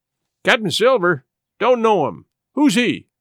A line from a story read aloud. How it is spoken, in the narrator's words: cried the captain